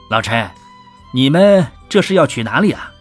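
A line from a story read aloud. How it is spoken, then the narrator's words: Laughing. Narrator (Chinese): 秦淮笑着说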